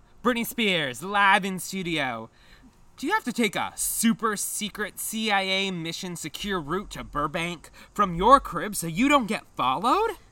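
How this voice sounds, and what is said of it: Put-on radio host voice. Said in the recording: “do my best radio voice.”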